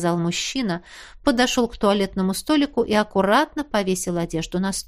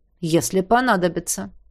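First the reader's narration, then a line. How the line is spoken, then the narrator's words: Cold reply. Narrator (Russian): холодно ответил тень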